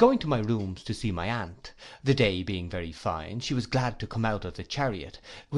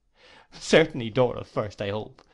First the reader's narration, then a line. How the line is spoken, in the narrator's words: said Agnes, laughing